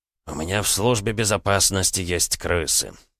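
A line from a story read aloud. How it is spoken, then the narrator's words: Mutter. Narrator (Russian): пробормотал Макаров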